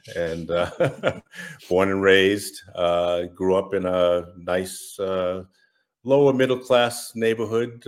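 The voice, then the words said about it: Massachusetts accent. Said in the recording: “I'm from Massachusetts, if you can't tell from my accent”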